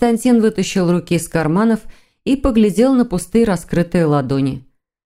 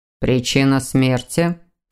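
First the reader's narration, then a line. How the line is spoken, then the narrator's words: Stern question. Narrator (Russian): строго спросил Александр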